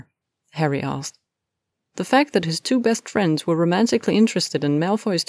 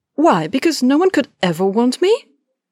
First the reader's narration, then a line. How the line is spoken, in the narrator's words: Hermione snapped